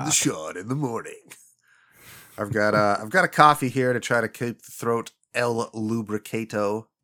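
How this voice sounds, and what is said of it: Gravelly, congested deep voice. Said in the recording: “I'm sure you can hear it in my voice because I had that drainage ... almost the sexy voice style ... hey, gravelly ... This is NPR voice”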